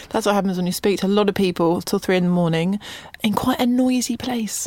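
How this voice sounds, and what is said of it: Slightly gravelly, rough voice. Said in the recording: “my voice sounds quite nice this morning ... It's a little gravelly.”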